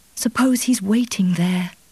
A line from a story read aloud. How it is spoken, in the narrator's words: He forced his lips to smile, and his voice retained the gentle, persuasive tone